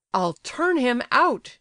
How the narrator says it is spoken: shouted Gania, glad of the opportunity of venting his vexation

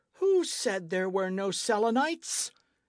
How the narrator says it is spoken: exclaimed Michel, in a threatening tone

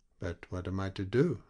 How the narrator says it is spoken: asked Michel timidly

